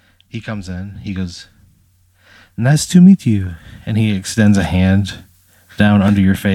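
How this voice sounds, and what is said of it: Usual voice. Nothing is said of it.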